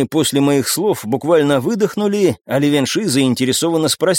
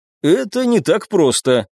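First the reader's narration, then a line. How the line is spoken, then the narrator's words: Snorting. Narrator (Russian): хмыкнул я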